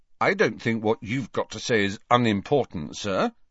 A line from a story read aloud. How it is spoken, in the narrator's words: said Harry stiffly